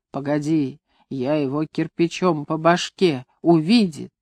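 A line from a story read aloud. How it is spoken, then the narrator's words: Tearful choking whisper. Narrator (Russian): он прошептал, захлебываясь слезами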